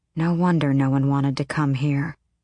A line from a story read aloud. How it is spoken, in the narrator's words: Aelin muttered